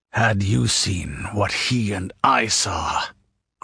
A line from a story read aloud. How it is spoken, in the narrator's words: growled the king